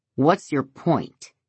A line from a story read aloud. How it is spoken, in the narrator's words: He asks angrily